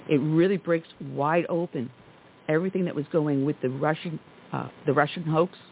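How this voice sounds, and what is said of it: Hoarse, strained voice. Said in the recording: “I don't know why I'm losing my voice today”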